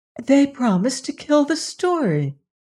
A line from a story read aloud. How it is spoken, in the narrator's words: cried aghast